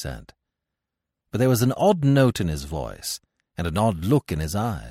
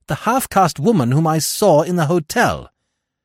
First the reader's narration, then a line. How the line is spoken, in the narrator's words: I cried